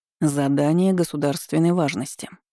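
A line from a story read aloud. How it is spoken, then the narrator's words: Solemn announcement. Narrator (Russian): торжественно заявил инспектор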